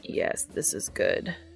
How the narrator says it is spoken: Castiel croaks

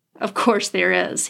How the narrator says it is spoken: he chuckled

